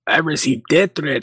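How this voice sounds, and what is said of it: Poor attempt at Venezuelan accent, sounds Mexican. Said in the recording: “Oh, that's Mexican. That ain't Venezuelan. I don't have a good Venezuelan accent”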